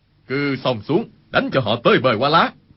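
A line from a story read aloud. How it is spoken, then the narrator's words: Loud shout. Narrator (Vietnamese): Khưu Sử Cơ quát lớn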